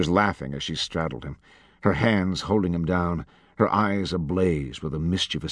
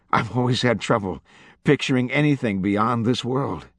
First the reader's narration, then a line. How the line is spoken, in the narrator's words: he choked, laughing harder now